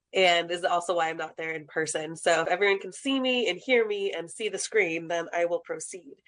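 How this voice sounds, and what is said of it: Hoarse, croaky voice from a cold. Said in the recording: “I am getting over a cold, so that's why I sound like a frog.”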